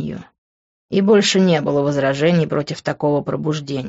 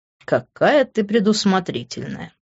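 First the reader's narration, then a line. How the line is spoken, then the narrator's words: Snorting. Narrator (Russian): хмыкнул я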